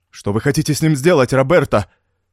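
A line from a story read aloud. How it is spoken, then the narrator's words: Agitated question. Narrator (Russian): взволнованно спросил Мендино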